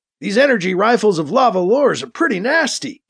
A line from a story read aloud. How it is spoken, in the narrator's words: Thomas exclaims